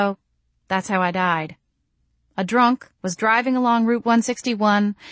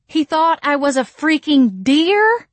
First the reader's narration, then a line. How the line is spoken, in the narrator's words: I screamed